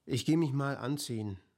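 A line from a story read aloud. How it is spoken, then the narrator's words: Plain. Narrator (German): sagte Rupert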